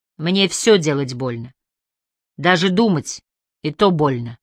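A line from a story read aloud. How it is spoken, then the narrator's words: Angry reply. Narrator (Russian): сердито ответил Эндрю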